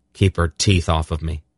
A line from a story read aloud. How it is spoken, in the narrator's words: he told Zakath in a flat, unemotional tone